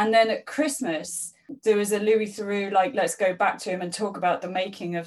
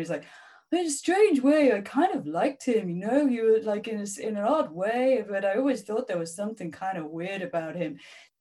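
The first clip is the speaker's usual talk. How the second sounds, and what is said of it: Imitates another person's voice. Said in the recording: “my Louis Theroux impression ... that's what I was doing ... he was very good”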